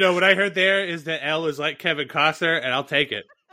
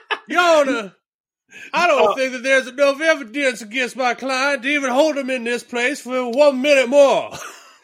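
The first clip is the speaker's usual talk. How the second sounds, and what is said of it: Bad put-on Southern US accent. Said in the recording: “a bad impression. Yeah, in this case, Southern Tribal Lawyer accent. ... doing a horrible Southern accent”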